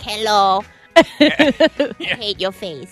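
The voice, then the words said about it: Put-on accent imitating her mother. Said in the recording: “The accent? ... I do the accent. I basically do my mother.”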